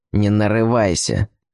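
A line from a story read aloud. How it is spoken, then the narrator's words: Sulky muttering young man. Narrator (Russian): пробурчал парень, получивший нагоняй от вышестоящих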